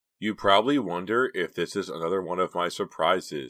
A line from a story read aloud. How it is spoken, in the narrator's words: she said with a little laugh